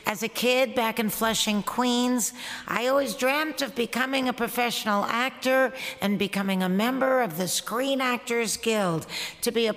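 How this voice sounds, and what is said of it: New York accent. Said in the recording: “As you can tell from my mellifluous accent, I am a New Yorker born and raised.”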